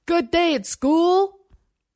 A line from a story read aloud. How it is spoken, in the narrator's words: Over the rising whine of the engine and the vip-vip-vip of chopped air shouted